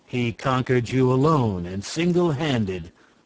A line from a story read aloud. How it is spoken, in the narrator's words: said Nerl